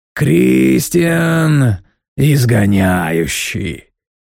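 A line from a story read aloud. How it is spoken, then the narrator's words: Grand drawl. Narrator (Russian): протянул он величаво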